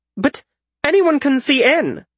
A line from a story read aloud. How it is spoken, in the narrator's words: Frisher exclaimed